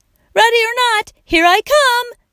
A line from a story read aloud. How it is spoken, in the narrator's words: shouted Leroy